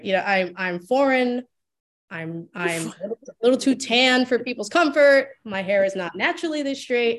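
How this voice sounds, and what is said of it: Speaks with a noticeable accent. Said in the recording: “I have an accent.”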